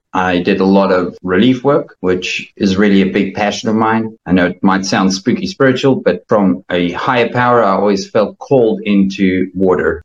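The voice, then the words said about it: South African accent. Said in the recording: “The awesome accent is from South Africa.”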